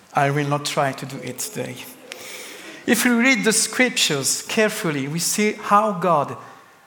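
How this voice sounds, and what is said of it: French-accented English. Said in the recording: “a French accent ... I love your lovely French accent”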